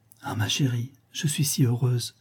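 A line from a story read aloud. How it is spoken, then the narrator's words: Said softly. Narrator (French): dit à voix basse Lisa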